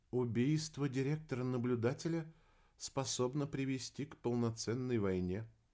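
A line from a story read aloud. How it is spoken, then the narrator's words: Quiet remark. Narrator (Russian): негромко заметила рыжая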